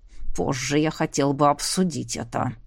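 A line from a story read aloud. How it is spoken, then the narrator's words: Through gritted teeth. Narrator (Russian): сквозь зубы произнес Тодж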